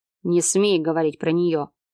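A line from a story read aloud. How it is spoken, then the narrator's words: Through gritted teeth. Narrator (Russian): процедил Марат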